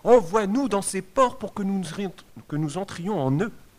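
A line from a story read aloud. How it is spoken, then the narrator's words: Evil spirits pleading. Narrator (French): Les esprits mauvais supplièrent Jésus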